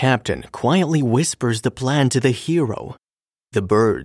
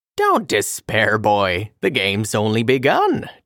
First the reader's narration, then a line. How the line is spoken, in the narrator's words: chuckles the captain